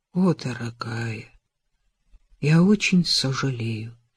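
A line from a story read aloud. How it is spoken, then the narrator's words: Hollow, muffled voice. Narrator (Russian): глухо произнес он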